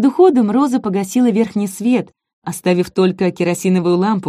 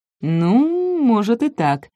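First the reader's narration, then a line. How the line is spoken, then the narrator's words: Drawling. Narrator (Russian): протянул Нико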